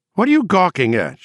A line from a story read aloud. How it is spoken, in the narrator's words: She called out, too shrilly